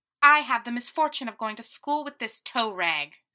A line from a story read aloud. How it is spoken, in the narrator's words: she snapped